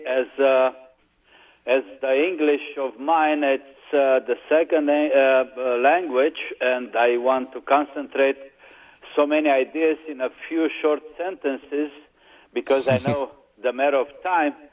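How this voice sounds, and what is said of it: Non-native English accent. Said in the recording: “You've got such a beautiful accent”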